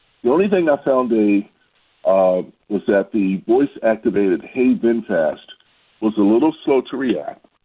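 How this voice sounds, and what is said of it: Baltimore accent. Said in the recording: “maybe because of my accent. ... maybe the Baltimore accent was a little odd for them”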